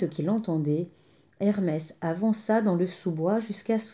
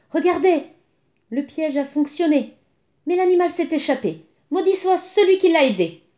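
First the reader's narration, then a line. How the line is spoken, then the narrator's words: Exclaiming. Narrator (French): s'exclama-t-il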